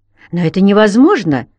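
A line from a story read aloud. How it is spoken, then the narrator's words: Sharp. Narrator (Russian): резко сказала она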